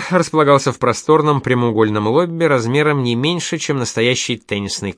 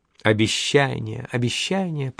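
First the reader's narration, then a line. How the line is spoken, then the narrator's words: Purring. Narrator (Russian): промурлыкала Эльза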